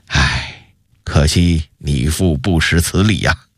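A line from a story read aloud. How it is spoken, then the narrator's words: Satisfied sigh. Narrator (Chinese): 永乐帝的脸上露出一丝满意的笑容，紧接着又一叹道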